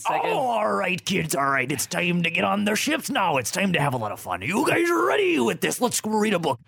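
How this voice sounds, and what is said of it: Pirate character voice. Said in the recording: “Pirate Night ... in that voice ... you can't break character either ... what happened to pirates?”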